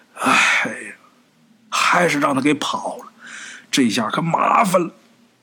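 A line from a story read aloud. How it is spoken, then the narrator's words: Grave, worried sigh. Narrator (Chinese): 这脸色呀很凝重，眉头紧锁，叹了一口气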